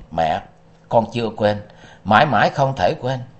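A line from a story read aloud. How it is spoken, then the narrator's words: Choked with emotion. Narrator (Vietnamese): chàng nghẹn ngào nói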